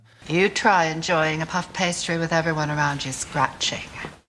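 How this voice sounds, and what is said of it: Moira Rose's affected accent. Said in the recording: “Catherine O'Hara does a, you know, first walked in and did her accent as Moira ... her delivering those lines in that accent.”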